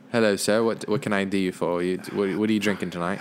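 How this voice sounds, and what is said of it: Put-on British accent. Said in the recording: “Let me get an accent. ... Speaking of British accents”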